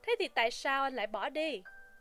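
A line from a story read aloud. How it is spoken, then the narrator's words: Smiling. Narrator (Vietnamese): McMurdo lại mỉm cười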